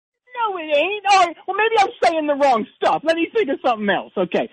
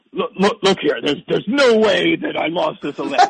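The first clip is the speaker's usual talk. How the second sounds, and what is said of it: Imitates another person's voice, poorly. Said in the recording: “That's the worst Trump impression I've ever heard in my life ... It's terrible”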